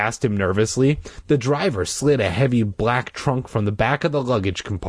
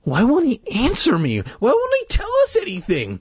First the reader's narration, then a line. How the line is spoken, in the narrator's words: Mike whined like a little bitch